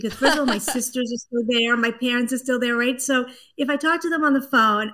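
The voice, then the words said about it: Light Brooklyn New York accent. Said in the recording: “I can kind of hear a little bit of that East Coast kind of Brooklyn-y, Boston-y accent ... I am going to revert to a Brooklyn accent. I can get it really heavy.”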